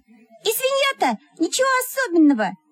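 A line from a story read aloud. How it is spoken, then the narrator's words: Squeaky voice. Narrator (Russian): Пропищала Мухина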